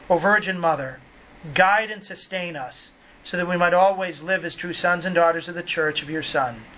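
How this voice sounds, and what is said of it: New England accent. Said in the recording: “in my New England accent”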